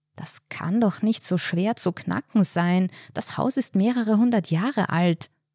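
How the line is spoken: Hissed. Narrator (German): zischte er

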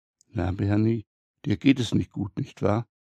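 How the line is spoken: Whispering. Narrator (German): flüstert

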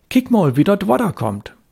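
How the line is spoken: Shouted. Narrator (German): rief er

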